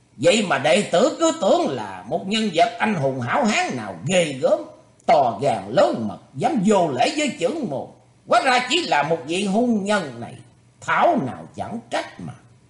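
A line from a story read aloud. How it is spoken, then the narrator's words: Calm, loud laughter. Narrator (Vietnamese): Pháp phong hòa thượng trong lòng chấn động, nhưng vẫn giữ sự bình tĩnh cười lớn nói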